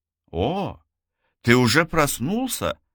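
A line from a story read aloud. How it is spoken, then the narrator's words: Joyful. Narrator (Russian): радостно ответила Сухейла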